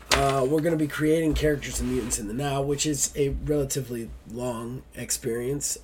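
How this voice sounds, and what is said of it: Congested, rough head-cold voice. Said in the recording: “my voice sounds terrible because I am still fighting a head cold right now”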